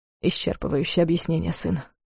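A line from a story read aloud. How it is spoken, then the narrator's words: Confused mutter. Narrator (Russian): пробормотал Дарс, и в его голосе послышалась растерянность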